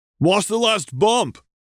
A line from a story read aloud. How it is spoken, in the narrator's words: Lime called out to Lemon